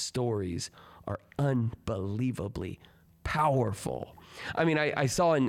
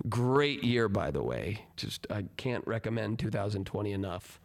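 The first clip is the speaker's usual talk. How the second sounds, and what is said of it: Sarcastic tone. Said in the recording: “I'm being sarcastic”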